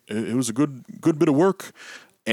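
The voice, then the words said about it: Imitates another person's voice. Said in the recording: “That's a great impression. That's a great impression”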